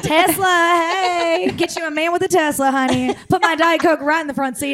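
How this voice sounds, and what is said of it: Put-on Southern accent. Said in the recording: “now you have my southern accent”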